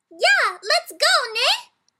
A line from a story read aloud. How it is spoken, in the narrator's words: Bree shouted